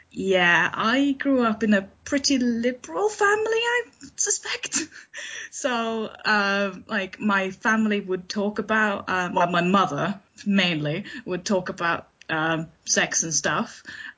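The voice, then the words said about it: Slightly unusual Swedish accent. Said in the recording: “my accent is probably a little bit weird because I'm not British, I'm Swedish, and I've lived in the UK for about 10, 11 years now”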